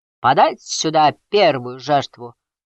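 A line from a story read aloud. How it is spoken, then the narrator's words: Sea god roaring. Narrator (Russian): проревел бог морей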